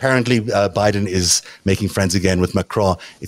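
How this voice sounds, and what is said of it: Usual voice. Nothing is said of it.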